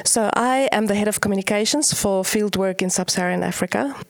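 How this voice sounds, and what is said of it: South African accent. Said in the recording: “I love your accent. ... South Africa? ... Yes.”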